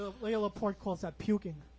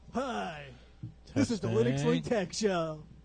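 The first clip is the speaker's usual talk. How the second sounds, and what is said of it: Cheesy radio announcer voice. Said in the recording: “doing my cheesy radio voice”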